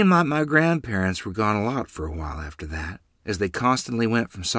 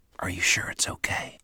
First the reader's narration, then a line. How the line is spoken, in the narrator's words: I whispered, not knowing if I really wanted to see Freeland